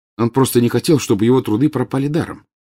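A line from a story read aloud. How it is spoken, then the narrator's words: Plain. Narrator (Russian): сказал Гарри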